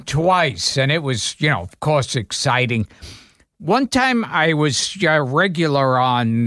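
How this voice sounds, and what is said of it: Usual voice. Nothing is said of it.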